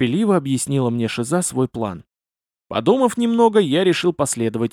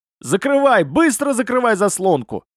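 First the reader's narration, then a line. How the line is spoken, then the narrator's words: Frightened yell. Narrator (Russian): заорал испуганный Брага, увидев непонятный вихрь над отстойником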